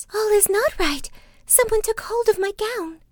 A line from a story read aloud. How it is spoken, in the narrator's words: she cried out to her sisters